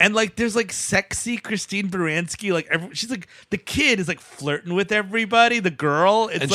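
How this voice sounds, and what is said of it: Usual voice. Nothing is said of it.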